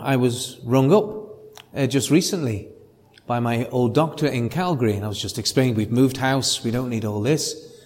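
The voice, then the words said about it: Liverpool Scouse English accent. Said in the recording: “Mine is from the northwest English port called Liverpool. It's a dialect called Scouse. ... it's good to hear a Scouse accent”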